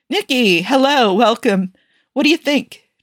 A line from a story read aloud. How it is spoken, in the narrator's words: Joe asked eagerly